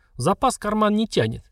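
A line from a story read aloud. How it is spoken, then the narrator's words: Snide reply. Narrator (Russian): ехидно ответил контролирующий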